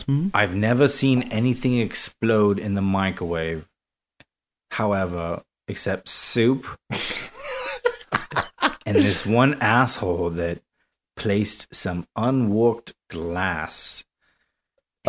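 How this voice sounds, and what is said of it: Intriguing accent, hard to understand. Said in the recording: “your accent is very ... intriguing, but very hard to understand sometimes.”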